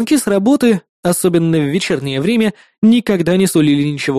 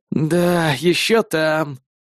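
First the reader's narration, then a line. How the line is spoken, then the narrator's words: Resigned exhale. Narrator (Russian): обреченно выдохнул он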